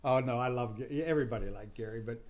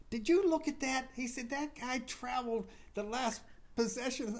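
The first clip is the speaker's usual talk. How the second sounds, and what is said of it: Impression of Gary Williams. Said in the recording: “That's not a bad Gary Williams impression.”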